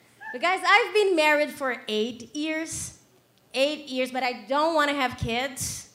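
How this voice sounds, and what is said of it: Brazilian accent. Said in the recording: “I'm from Brazil, that's why I have an accent”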